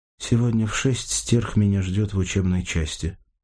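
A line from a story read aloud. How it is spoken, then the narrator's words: Plain. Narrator (Russian): сказала Сашка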